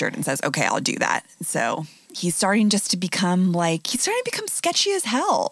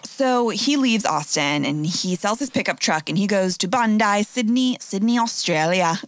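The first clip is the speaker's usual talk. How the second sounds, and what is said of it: Poor put-on Australian accent. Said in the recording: “I'm so bad at Australian accents ... terrible Australian accents”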